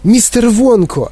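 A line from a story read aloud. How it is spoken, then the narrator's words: Exclaiming. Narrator (Ukrainian): вигукнув він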